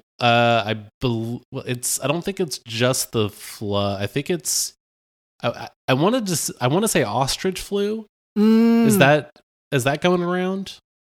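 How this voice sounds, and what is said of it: Congested voice. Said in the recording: “apologize for my voice today. It's more congested than usual”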